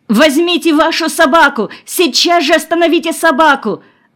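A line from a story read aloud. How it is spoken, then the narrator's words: Terrified trembling scream. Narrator (Russian): завопила Нина, дрожа, как осиновый лист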